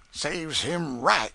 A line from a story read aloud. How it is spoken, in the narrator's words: said Aunt Chloe indignantly